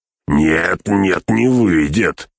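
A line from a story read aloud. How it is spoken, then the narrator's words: Barked. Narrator (Russian): рявкнул погонщик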